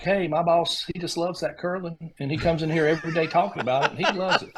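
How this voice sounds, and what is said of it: Thick Southern US accent imitation. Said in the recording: “Grace is from North Georgia ... Grace has a thicker accent than I do”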